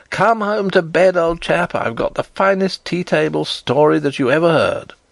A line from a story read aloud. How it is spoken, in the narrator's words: I laughed aloud, and said